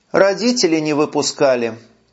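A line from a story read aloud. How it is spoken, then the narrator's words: Feigned sigh. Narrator (Russian): Притворно вздохнула Машка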